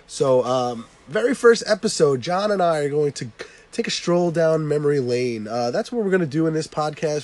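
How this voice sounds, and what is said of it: Voice sounds sick from a cold. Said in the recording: “I have a little bit of a cold, ... bear with my voice today ... when you have a horrible voice”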